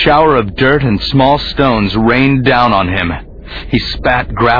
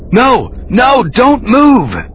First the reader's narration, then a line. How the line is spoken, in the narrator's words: the boy shouted